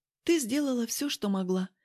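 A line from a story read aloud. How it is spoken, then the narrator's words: Soft gentle. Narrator (Russian): мягко ответила она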